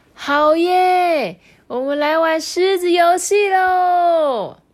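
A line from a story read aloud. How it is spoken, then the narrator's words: Group shouting. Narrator (Chinese): 大家都喊着说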